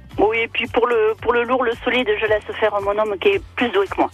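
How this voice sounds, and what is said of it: Southern French accent. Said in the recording (French): “Vous avez un charmant accent ... je suis du sud”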